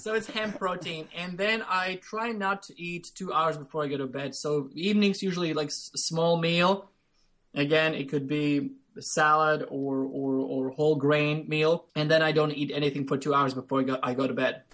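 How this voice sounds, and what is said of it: Speaks English with a noticeable accent. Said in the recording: “It's my accent ... you have an amazing accent ... My ears just need to be adjusted.”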